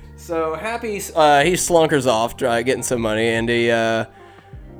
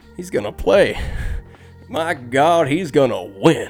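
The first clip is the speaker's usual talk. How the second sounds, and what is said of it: Impression of a movie character. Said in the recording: “That's my best Chubbs impression.”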